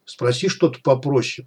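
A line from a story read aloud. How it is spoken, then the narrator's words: Hissed. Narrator (Russian): прошипел сталкер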